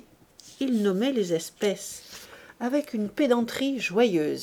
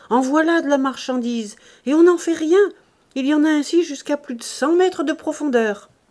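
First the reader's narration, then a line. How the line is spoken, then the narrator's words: Shouted. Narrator (French): criait-il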